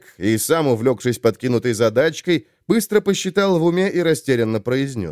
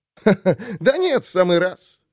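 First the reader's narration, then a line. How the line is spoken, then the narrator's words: Laughing. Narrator (Russian): опять засмеялся Айрунг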